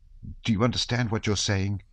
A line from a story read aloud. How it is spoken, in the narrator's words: He said in a trembling voice